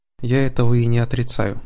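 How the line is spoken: Calm reply. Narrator (Russian): спокойно ответил герцог

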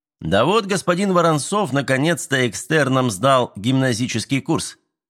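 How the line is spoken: Cheerful explanation. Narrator (Russian): весело пояснили ему

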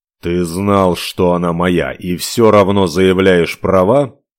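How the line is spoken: Muffled, flat. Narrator (Russian): глухо уточнил Ивар

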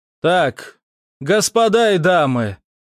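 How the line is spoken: Loud. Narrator (Russian): громко произнес я

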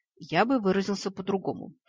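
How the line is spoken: Muttering incubus. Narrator (Russian): пробормотал инкуб

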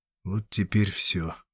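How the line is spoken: Muttering. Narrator (Russian): бормотал

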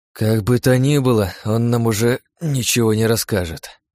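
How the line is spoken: Sighing. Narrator (Russian): вздохнул

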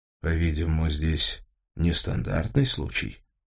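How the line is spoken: Gentle inquiry. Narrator (Russian): мягко осведомился Коженников

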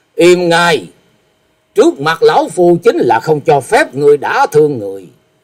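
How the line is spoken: Angry snort. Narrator (Vietnamese): Như Ý Tẩu Đông Phương Húc tức giận hừ một tiếng nói

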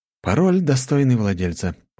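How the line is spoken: Wry grunt. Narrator (Russian): хмыкнул я

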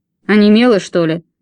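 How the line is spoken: Barked. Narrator (Russian): рявкнул дядя Джосс

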